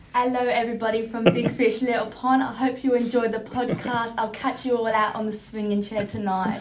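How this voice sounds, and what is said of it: Love Island UK presenter-style voice. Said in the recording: “impersonation or impression of Love Island UK ... your best Love Island UK”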